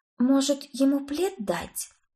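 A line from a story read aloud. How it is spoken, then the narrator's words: Sympathetic whisper. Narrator (Russian): сочувственно прошептала я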